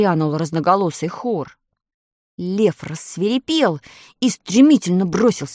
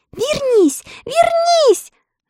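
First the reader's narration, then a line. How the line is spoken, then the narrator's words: Crying scream. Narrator (Russian): закричала Элли и с плачем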